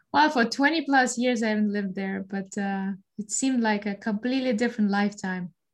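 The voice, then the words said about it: Russian-accented English. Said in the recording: “with that accent, we know you're from somewhere other than like, you know, Tennessee, somewhere in the United States. You are from Moscow originally”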